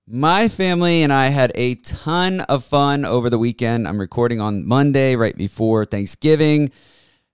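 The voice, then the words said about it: Strained, sick-sounding voice. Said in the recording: “You'll have to excuse my voice a little bit... I don't know if I'm catching a cold or some weird sickness... I'm struggling a little bit in the voice department”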